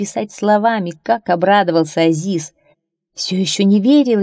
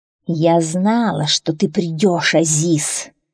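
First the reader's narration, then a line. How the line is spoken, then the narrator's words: Sinister hiss, young woman. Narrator (Russian): Со зловещим блеском в глазах прошипела ведьмина дочка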